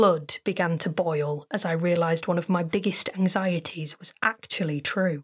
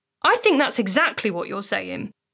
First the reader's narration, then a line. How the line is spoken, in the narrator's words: snapped